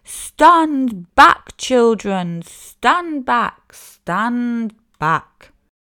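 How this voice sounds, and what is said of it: Big deep shouting voice. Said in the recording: “a big deep voice from the jungle shouted”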